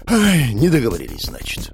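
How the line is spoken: Sigh. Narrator (Russian): вздохнул я

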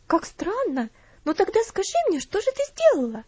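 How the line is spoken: Curious exclamation. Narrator (Russian): Опять воскликнула Луси, не скрывая любопытства

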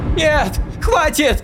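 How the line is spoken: Young woman crying out asleep. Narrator (Russian): Сквозь тревожный сон прокричала молодая женщина

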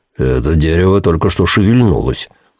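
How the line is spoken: Low voice. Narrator (Russian): низким голосом проговорил он

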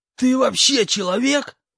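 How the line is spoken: Hissing. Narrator (Russian): прошипел хобот

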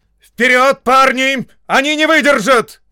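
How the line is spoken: Shouting. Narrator (Russian): кричал Уэлсли

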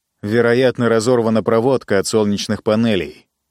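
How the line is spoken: Plain. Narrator (Russian): сказал я

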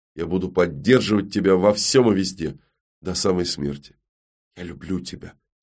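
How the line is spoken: Quiet. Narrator (Russian): тихо произнесла Всеведа

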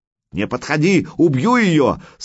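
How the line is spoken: Young rat yelling. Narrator (Russian): сразу завопил крысеныш

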